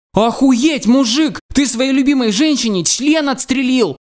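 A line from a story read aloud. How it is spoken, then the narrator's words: Exclamation. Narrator (Russian): воскликнул я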